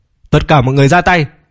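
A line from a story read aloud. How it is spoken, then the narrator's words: Angry loud shout. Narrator (Vietnamese): Tử Định Phong cũng tức giận kêu to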